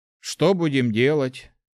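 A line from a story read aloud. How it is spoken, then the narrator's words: Gloomy question. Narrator (Russian): уныло спросил Март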